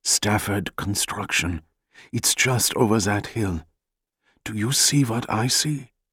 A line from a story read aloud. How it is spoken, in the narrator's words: In Jack's ear, Ephraim whispered